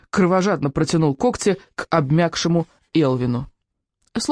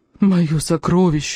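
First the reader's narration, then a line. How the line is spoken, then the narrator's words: Sobbing. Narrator (Russian): рыдал он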